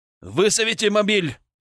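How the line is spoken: Shout. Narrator (Russian): крикнул он

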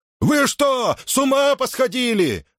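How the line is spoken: Shouting. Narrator (Russian): закричал он

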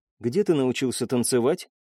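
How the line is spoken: Quiet question. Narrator (Russian): тихо спросила Элина

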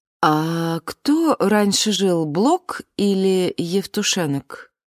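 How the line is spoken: Ingratiating, mother's voice. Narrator (Russian): вкрадчиво произнесла мама

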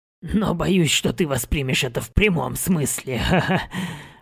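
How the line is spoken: Chuckling. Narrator (Russian): хохотнул он

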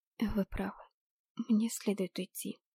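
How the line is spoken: Whisper. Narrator (Russian): прошептала я

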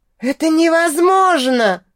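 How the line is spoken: Shrill squeal. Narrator (Russian): взвизгнул Анденшон

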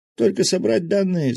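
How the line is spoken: Breathless wheeze. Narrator (Russian): задыхаясь, прохрипел мужик

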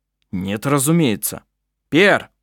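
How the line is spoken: Shout. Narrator (Russian): Когда он крикнул

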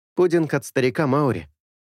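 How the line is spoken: Cheerful. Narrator (Russian): весело сообщил Анка

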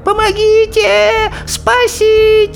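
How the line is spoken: Desperate wailing. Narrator (Russian): Несчастная ведьма так завопила

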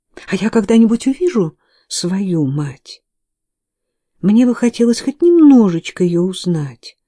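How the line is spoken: Pleading. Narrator (Russian): взмолилась она

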